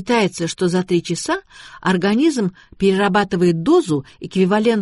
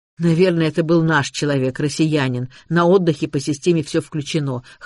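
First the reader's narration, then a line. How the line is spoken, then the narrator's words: Snort. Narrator (Russian): хмыкнул Макс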